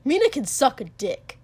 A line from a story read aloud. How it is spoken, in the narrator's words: Kotsuki spat